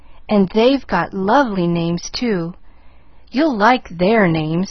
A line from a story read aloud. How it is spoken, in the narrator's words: sighed Nancy